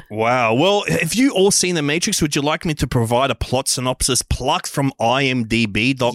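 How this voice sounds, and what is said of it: Exaggerated excitable know-it-all character voice. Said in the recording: “I'm doing my extremely exciting character voice. Guy who knows heaps about The Matrix.”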